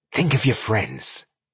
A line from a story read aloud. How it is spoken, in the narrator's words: she whispered threateningly